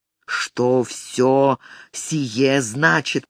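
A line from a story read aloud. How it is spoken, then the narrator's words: Hissing. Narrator (Russian): прошипел он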